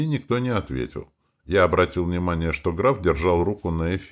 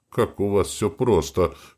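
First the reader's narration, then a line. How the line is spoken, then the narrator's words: Dry chuckle. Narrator (Russian): хмыкнул я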